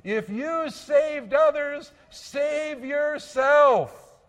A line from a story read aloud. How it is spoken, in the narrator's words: as they're screaming and sneering